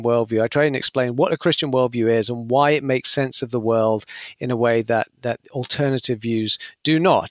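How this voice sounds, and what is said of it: British accent. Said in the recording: “from your accent, you're not originally from America, and I know you're from the UK”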